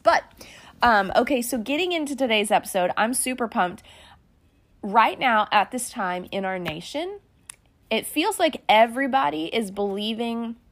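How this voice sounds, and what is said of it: Slightly weird, dry-sounding voice. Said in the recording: “forgive my voice. If I sound a little weird, ... I'm just in that dry part of that ... if I sound funny”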